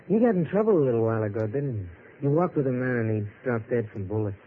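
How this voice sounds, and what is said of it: American accent. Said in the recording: “you've got quite an American lilt to your voice.”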